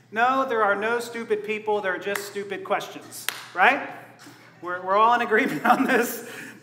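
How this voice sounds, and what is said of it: Sarcastic delivery. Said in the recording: “obviously being sarcastic here.”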